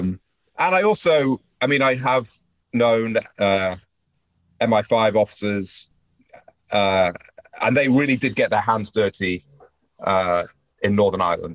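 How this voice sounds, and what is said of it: British accent. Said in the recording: “I'm British born, as you can tell from the accent”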